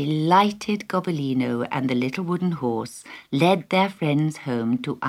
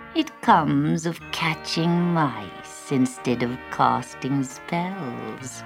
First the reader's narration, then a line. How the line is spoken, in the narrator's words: she explained, with a deep purr